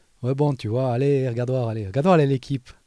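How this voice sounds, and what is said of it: Put-on strong Valais French accent. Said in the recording (French): “en Valais, il y a un énorme accent ... je te parle avec mon accent neutralisé. Mais quand j'avais 13 ans, si je te parlais ... j'aurais un accent un peu comme ça ... l'accent valaisan”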